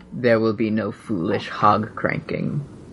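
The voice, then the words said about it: Snape character voice impression. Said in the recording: “That was a Snape impression.”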